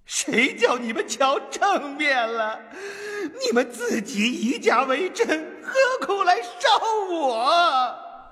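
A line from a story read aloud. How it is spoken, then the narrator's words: Shouting. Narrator (Chinese): 那跛足道人喊道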